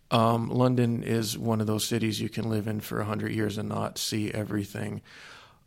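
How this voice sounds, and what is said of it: Non-English accent. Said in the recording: “the accent gives it away. I'm not actually English.”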